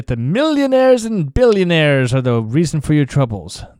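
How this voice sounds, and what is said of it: Poor imitation of another person's voice. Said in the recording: “terrible impression of Bernie Sanders”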